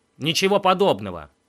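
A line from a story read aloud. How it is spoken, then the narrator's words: Snapped. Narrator (Russian): огрызнулся он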